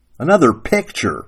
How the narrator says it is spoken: Sarah Ruth growled

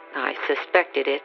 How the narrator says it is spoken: he said quietly

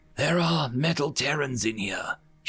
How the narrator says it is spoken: whispered loudly

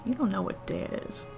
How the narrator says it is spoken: mutters

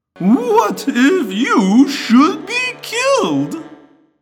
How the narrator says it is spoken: Goyd asked, lowering his whine to an annoying whimper

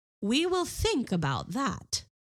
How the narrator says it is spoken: said his wife

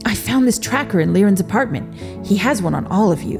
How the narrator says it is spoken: the man said, his voice getting more anxious by the minute

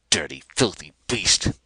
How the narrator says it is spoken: he was snarling

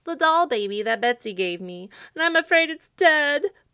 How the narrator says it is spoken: poor Jimmy Scarecrow sobbed

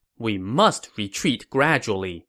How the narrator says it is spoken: Lu Xun said

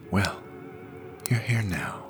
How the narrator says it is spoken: she whispered in my ear

